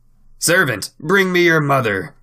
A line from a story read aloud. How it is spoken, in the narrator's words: shouted the goblin